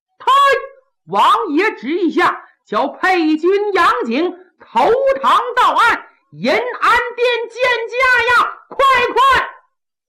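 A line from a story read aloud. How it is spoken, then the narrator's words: Shout from outside. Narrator (Chinese): 外边有人喊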